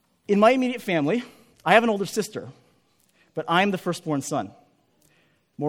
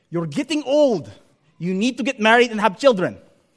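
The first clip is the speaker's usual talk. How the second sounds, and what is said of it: Imitates a relative's accent. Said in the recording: “I apologize for the accent I'm going to use, but I have to use the accent to make it legitimate”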